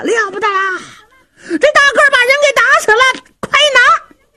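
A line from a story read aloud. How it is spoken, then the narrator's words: Shouting. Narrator (Chinese): 这些恶奴可就喊上了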